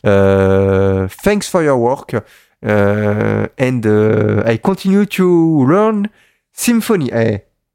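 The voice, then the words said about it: English spoken with French accent. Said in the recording (French): “British accent, hein. The best English accent, hein. The French accent.”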